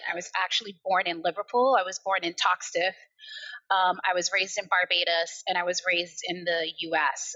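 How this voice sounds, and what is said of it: American accent. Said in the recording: “despite having an American accent”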